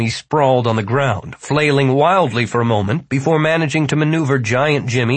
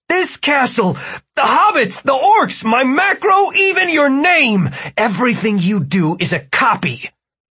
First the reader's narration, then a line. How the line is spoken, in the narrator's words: Martin shouted